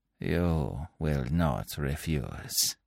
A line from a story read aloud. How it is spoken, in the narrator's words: continued Fu Manchu softly